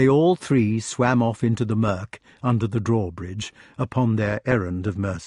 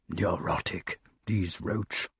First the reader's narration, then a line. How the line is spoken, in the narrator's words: whispered Merlin behind his fin